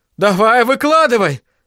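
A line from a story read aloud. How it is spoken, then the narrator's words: Shouting. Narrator (Russian): закричал Айзек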